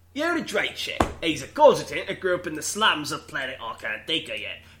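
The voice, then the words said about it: Put-on British accent. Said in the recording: “We started off as like a Boston accent, and now he's like British. ... This guy's part of Peaky Fucking Blinders.”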